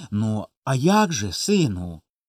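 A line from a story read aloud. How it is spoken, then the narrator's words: Gentle quiet father. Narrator (Ukrainian): ласкаво й тихо казав батько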